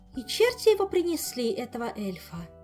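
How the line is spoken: Sighing. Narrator (Russian): Вздохнула Ольга

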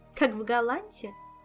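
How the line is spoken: Woman laughing. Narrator (Russian): засмеялась Азель

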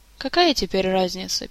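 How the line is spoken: Sad sigh. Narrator (Russian): печально вздохнул Арчибальд

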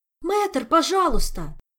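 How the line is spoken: Pleading exclamation. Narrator (Russian): умоляюще воскликнул Мафей

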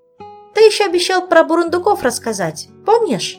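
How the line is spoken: Sudden, eager. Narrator (Russian): Спохватилась Саша, радостно цепляясь за предложенную тему

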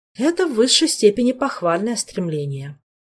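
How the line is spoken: Resigned sigh. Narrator (Russian): вздохнул Шелар, осознавая безнадежность своих попыток

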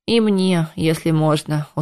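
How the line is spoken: Tired request. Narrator (Russian): устало попросил

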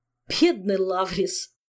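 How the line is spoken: Commenting after laughing. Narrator (Russian): прокомментировал он, отсмеявшись

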